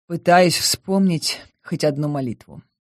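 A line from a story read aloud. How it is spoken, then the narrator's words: Gloomy reply. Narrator (Russian): мрачно ответила я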